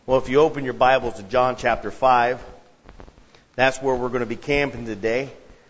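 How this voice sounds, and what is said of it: Slightly hoarse voice. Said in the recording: “my voice is a little hoarse ... you have to yell just to communicate anything”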